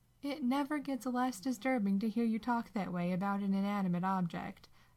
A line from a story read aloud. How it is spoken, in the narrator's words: Sam laughs